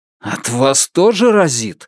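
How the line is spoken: Restrained, suppressing a growl. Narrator (Russian): сказал Лун, подавляя желание зарычать

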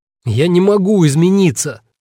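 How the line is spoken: Desperate shout. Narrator (Russian): в отчаянии выкрикнул он Норману

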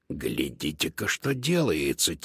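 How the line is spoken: Quiet meow. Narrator (Russian): тихо мяукнул Додо

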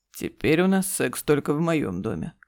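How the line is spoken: Smirking grunt. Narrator (Russian): хмыкнул Игорь

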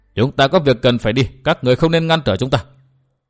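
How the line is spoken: Cold. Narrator (Vietnamese): bà lạnh lùng nói

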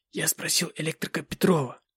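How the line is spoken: Muttering. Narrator (Russian): бормотал какую-то чушь

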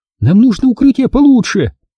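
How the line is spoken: Panicked shout. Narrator (Russian): в панике закричала Эрита

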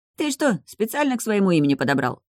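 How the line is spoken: Friendly snort. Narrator (Russian): хмыкнул Андрей, впрочем, довольно дружелюбно

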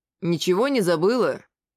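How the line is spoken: Stern question. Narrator (Russian): спросил я строгим голосом

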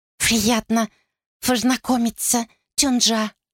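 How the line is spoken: Whistling, lisping woman. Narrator (Russian): Из-за этого уродства она говорила, свистя и пришептывая

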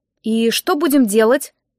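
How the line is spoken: Forced out after pause. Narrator (Russian): выдавила я после паузы

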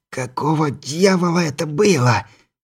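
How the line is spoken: Hoarse breathless. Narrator (Russian): хрипло выдохнула она

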